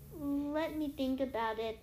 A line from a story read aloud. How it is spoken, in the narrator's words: Annabeth murmured